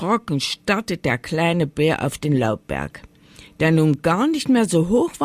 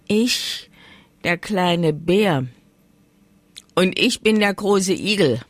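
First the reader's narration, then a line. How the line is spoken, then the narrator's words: Growled. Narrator (German): knurrte die Stimme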